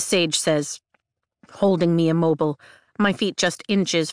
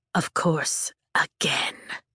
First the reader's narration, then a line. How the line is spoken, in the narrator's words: the dark wielder hisses, his face contorting into a sneer